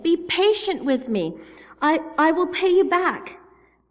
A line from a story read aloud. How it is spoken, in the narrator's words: His fellow servant begged him